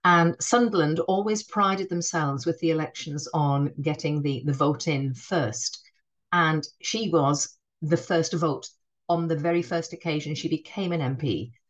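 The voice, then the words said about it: Northeastern English accent. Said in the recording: “my northern accent. I'm not a Geordie, but I do have a northeastern accent.”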